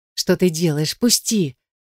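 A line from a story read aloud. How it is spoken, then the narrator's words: Quiet whisper. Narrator (Russian): шеплю я тихо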